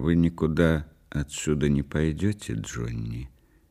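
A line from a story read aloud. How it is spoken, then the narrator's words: Quiet. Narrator (Russian): тихо сказала она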